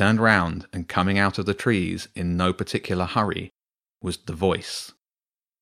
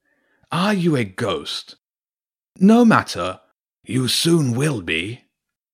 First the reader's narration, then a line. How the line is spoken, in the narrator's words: the voice of Garor Ulf called out